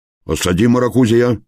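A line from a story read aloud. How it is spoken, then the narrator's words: Bark. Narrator (Russian): рявкнул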